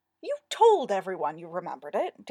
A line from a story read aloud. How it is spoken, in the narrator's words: Darren said sharply, his tone and eyebrows a parallel accusation